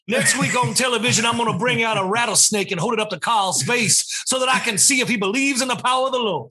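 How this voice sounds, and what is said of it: Southern Baptist preacher accent. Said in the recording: “He's gone full blown preacher from the Southern Baptist world. ... Now he has an accent.”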